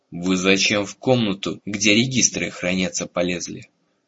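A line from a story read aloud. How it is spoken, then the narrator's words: Menacing demand. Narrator (Russian): самый высокий из стражников грозно вопрошал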